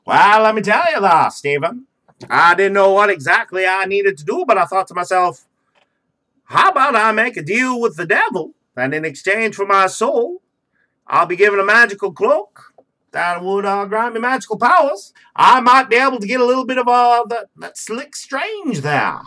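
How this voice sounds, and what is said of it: Put-on old pilgrim character accent. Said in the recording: “is there a reason that he has this accent? He's a fucking pilgrim.”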